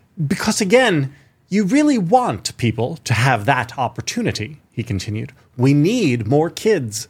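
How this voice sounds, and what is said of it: New voice, almost British-sounding. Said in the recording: “Almost British in this new voice of yours.”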